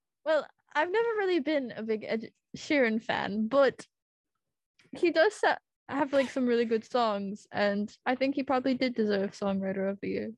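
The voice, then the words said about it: Put-on British accent. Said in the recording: “You don't want to hear my British accent. I'm going to offend all the UK ... We need the accent.”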